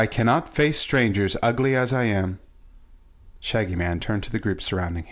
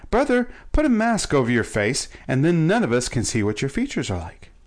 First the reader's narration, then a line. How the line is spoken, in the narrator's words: exclaimed Shaggy joyfully